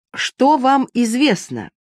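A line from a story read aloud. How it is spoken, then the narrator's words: Shouted. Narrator (Russian): закричал Пьер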